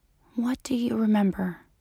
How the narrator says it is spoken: whispered

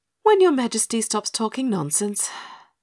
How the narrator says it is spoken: sighed Pinny

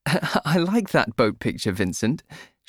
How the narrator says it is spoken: laugh

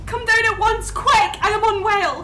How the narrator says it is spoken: Her voice rose suddenly to a scream

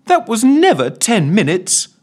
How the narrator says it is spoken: moaned Ellen

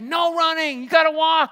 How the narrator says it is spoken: the manager would yell at us and say

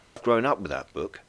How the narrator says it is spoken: he said quietly

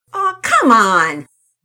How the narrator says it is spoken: Rocket shouted

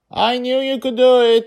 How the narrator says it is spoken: she shouted supportively

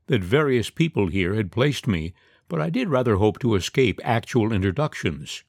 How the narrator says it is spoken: she continued crossly

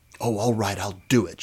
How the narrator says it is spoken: she suddenly blurted, not really knowing what pushed her over the edge

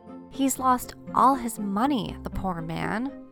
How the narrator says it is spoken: the wife said sadly

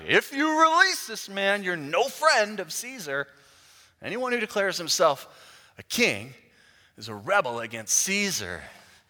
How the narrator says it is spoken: the Jewish leaders shouted

